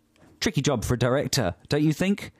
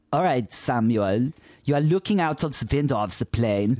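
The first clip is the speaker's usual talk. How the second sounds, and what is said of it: Put-on German accent. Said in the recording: “Is this a good accent? ... Very good. ... He's German.”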